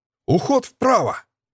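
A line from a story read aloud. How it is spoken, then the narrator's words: Sharp command. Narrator (Russian): резко скомандовал тень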